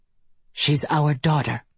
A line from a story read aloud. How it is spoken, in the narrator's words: Kemper said flatly